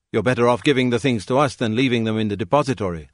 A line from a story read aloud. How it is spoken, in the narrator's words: they said